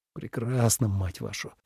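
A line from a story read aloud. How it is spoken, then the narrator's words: Muttered. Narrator (Russian): пробормотал Ленард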